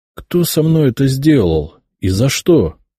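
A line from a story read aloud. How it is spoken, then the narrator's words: Almost calm question. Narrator (Russian): почти спокойно спросил я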